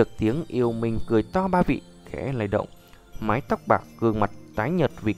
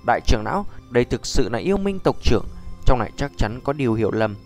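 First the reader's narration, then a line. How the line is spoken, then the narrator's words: Old man's cold shout. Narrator (Vietnamese): Lão giả khoác con rắn đỏ trên vai quát lạnh nói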